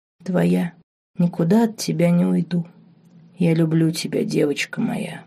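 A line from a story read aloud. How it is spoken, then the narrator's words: Whispered. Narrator (Russian): шепнул Марк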